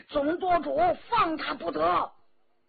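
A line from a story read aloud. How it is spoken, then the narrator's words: Group shouting. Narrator (Chinese): 张晋、骆冰、杨成协、常氏兄弟等等都叫了起来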